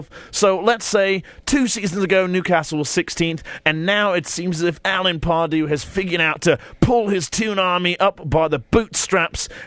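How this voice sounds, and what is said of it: British accent. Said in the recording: “God, I love that British accent.”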